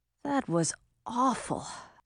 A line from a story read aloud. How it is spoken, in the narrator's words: Audun muttered